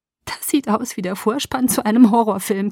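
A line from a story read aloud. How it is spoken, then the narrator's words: Giggling. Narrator (German): kicherte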